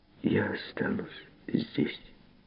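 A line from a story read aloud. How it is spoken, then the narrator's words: Quiet. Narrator (Russian): тихо ответила она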